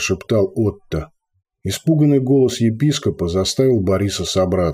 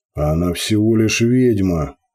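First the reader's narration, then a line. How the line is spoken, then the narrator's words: Growled. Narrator (Russian): прорычал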